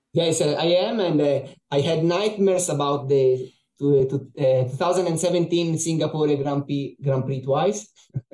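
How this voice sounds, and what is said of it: Noticeable foreign accent. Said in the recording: “It was probably obvious from your accent”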